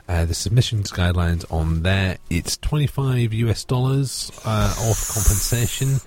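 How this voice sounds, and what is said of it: Speaks with an accent. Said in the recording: “Sorry, I have an accent.”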